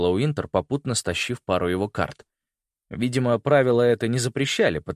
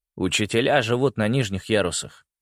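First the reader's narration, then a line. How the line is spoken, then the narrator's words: Dry. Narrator (Russian): сухо сказал Ригель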